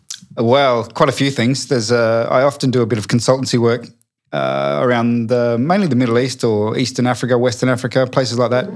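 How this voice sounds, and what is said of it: Australian accent. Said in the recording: “It's nice to have two Australian accents against one English accent.”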